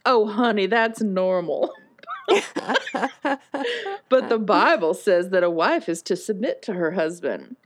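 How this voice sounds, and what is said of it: Thick southern drawl. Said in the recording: “in a thick southern drawl”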